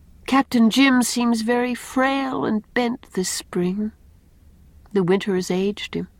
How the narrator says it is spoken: said Anne sadly

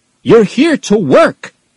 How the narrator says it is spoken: shouted

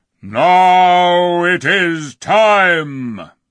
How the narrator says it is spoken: roared

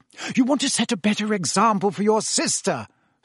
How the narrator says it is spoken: snapped Mrs

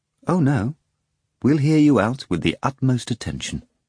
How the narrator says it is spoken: Stravinsky said

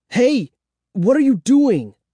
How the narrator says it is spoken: I cried

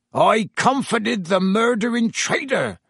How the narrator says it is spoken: Hagrid roared

